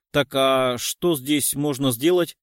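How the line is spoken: Dismissive snort. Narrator (Russian): Тот, которого он называл Анатолием Николаевичем, хмыкнул

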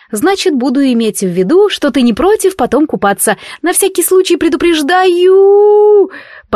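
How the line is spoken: Yelling in alarm. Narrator (Russian): Последнее завопила уже я, потому что дракон, не предупредив, резко начал снижаться

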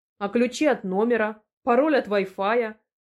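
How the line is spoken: Snapping. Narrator (Russian): огрызнулась я

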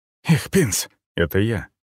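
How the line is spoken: Breathless exhale. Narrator (Russian): выдохнул секретарь

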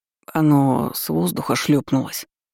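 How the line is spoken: Sweaty man muttering. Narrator (Russian): пробормотал потлатый Равейн

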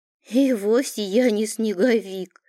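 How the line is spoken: Giggling. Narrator (Russian): хихикнул тот

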